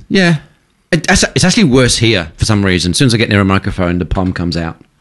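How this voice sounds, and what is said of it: British accent. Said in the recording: “Your accent's still quite intact. ... as soon as I spoke to you, I went, oh, you're British.”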